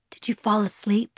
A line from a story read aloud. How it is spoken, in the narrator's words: He whispered